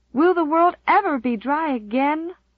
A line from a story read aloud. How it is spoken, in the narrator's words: moaned Di despairingly